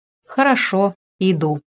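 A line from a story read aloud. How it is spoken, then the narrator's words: Plain. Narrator (Russian): сказал Гришка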